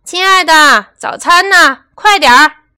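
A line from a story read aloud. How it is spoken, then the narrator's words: Loud shout. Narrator (Chinese): 朱先生总是大声喊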